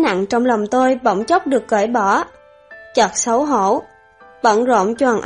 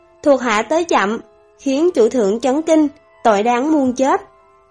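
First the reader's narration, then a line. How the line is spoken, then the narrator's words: Distant male voice. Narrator (Vietnamese): có giọng nói nam tử vọng vào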